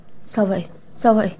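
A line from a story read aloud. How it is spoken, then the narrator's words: Frightened, tearful question. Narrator (Vietnamese): Lạc Thiên Ngưng sợ hãi đến mức không thèm lau nước mắt, hỏi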